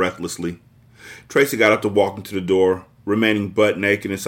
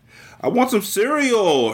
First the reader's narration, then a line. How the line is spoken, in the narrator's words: her brother squealed